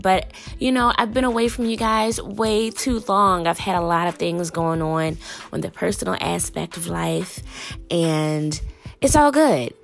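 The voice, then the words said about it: Deep, gravelly sick-sounding voice. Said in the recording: “I am a little sick, as you can tell by my voice is very deep and gravelly”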